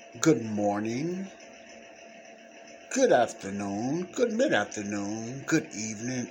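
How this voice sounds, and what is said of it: Radio DJ style announcer voice. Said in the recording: “you sound like a DJ, don't I? I'm just having some fun.”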